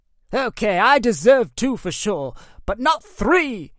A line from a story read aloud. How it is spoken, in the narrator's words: he yelled